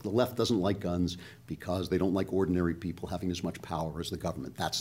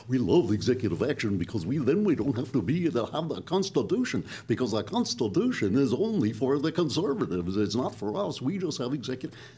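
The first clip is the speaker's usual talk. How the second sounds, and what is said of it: Mocking imitation of a leftist. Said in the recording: “That's a very good imitation of a leftist.”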